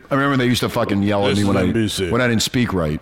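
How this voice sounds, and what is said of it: Deep radio-style voice. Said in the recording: “You don't like my deep voice? ... Yeah, you got that radio voice.”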